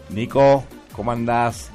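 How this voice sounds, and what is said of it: Slow announcer-style voice. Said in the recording (Spanish): “Con voz de locutor así, pausado.”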